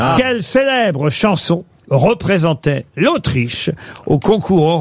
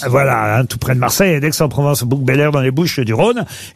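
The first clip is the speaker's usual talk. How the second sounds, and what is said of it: Put-on regional southern French accent. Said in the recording (French): “pourquoi je prends l'accent?”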